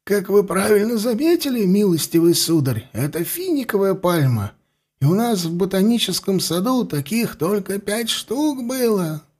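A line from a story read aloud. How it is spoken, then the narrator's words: Sorrowful sigh. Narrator (Russian): горестно вздохнул он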